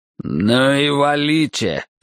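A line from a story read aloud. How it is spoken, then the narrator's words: Growl. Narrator (Russian): прорычал Ройс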